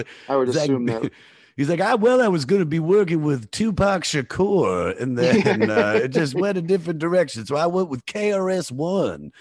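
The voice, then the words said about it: Imitates another person's voice. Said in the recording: “you do his voice, which is not, it's not far off.”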